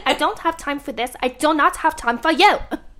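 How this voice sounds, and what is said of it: Imitating Inventing Anna's accent. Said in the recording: “Inventing Anna ... whatever that accent is”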